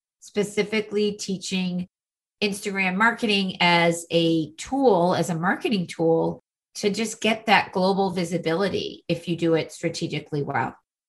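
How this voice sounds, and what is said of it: Boston accent. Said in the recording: “amazing accent, you know, she's in the Boston area. I love you hearing you say wicked smart and theater and the barrettes.”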